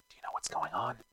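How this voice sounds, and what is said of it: Whispered question. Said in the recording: “I draw my knife and whisper”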